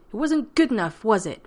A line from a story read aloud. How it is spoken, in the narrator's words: Rodney snapped